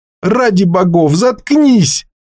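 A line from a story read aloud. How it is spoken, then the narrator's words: Shouting. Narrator (Russian): закричал Грен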